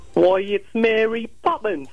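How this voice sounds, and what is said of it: American faking an English accent. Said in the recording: “an impression of an American doing an impression of an English person ... It's not bad”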